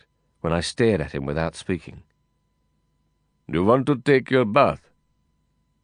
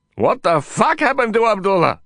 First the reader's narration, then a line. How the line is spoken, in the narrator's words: I shouted, my voice breaking